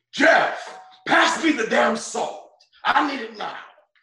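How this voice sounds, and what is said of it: Al Pacino impression. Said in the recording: “That was Pacino ... his whole impersonation”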